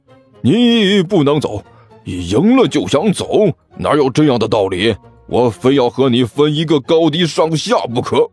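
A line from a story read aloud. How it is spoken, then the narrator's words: Loud roar. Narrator (Chinese): 李安都大吼了一声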